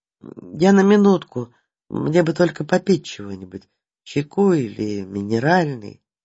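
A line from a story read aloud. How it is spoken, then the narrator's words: Timid old man's request. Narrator (Russian): старик робко оглядываясь, попросил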